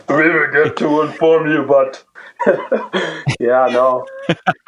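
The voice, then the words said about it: Imitates another person's voice. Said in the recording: “my Dikembe Mutombo impression ... That was good. It was good. Not bad”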